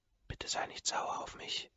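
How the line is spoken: Very soft whisper. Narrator (German): flüstert sie so leise, dass nur ich sie hören kann

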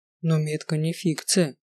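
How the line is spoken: Quiet. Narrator (Russian): тихо проговорил Рич

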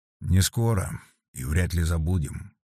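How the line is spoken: Quiet. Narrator (Russian): негромко произнес Петр Дмитриевич

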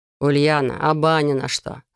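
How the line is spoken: Laughing speech. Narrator (Russian): сквозь смех говорит Иван

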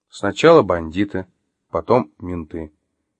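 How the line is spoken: Slow speech. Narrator (Russian): произнес Артем медленно

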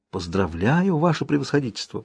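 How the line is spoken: Whisper. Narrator (Russian): прошептала княгиня Волконская

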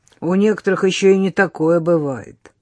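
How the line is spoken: Grumbled. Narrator (Russian): проворчал Егор

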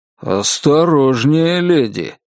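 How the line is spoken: Grumbling. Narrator (Russian): проворчал Алан

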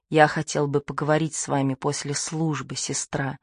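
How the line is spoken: Said quietly. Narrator (Russian): тихо сказал он

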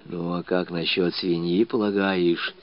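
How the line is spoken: Very quiet whisper. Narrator (Russian): уж совсем шепотом спрашивал Кишкин

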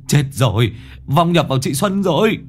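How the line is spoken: Shriek. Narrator (Vietnamese): Dương Đồng rú lên

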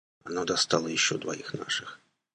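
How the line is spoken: Barely audible. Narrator (Russian): добавил он чуть слышно

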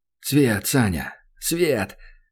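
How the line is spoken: Frantic joyful restrained whisper. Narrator (Russian): бешеный, еле сдерживаясь, зашептал он, хотя хотелось орать от радости во весь голос

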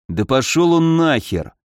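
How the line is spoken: Angry, through gritted teeth. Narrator (Russian): злобно оскалился, процедив сквозь зубы

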